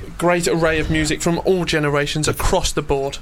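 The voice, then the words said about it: Polished radio presenter voice. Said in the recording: “That is your proper radio voice.”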